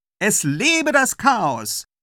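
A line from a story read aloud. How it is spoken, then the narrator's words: Farewell call. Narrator (German): ruft zum Abschied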